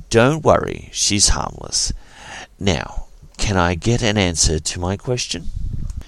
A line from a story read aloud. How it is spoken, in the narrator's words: Captain Dax decided to smooth things out by gently raising their hands and saying